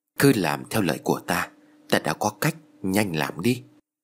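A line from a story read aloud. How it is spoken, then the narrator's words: Close whisper. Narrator (Vietnamese): thầy Tàu nói khẽ với Tư và Kha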